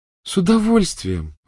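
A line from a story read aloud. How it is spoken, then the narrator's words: Joyful reply. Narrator (Russian): радостно откликнулась Полумна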